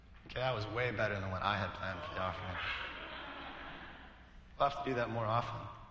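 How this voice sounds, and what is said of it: Slightly weak voice. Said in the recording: “my voice is a little weak. I had a cold”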